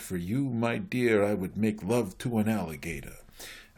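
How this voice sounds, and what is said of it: Groucho Marx impression. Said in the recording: “Groucho Marx, who said ... I'm sorry for my accent”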